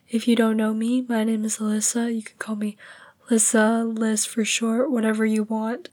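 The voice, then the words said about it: Weak, fading, hoarse voice. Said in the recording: “you can probably tell my voice is kind of going away. It's kind of not there ... I have been sick for the past week, and my voice has been going away”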